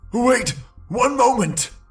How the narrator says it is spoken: gasped the brigand painfully

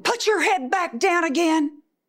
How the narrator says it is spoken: he screamed

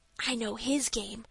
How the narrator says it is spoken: whispered Dick

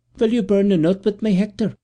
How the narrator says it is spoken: said kindly

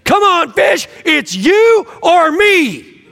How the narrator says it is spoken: He is screaming at the top of his lungs, saying

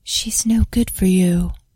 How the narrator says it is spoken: voice whisper in the wind

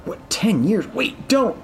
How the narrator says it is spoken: begged

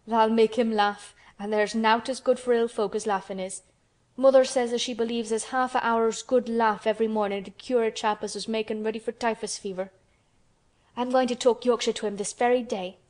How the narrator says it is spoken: said Mary, chuckling herself

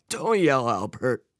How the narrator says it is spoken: his father said with a wheeze

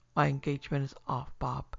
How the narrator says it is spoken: he said, trying to speak calmly, but with a tremor in his voice which he could not conceal

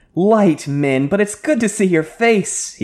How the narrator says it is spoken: he laughed

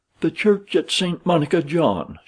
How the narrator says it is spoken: cried

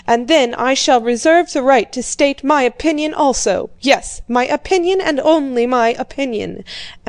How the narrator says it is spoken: he shouted

